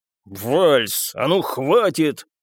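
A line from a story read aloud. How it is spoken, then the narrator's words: Barking again. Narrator (Russian): снова рявкнул Вукасович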